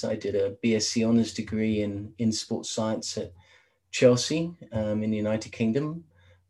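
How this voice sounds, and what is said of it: English London accent. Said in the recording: “obviously my accent, I'm originally from London in England”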